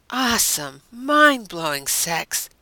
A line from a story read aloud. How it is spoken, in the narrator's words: Deanna said with a sigh